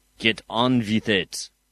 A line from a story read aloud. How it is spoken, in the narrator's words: growled Vossoff